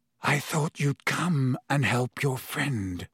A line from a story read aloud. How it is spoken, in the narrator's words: said hoarsely